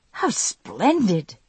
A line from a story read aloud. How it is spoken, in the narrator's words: she exclaimed